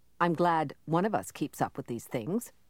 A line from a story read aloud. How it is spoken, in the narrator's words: Kai said dryly